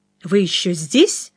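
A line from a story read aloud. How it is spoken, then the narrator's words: Plain. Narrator (Russian): спросил я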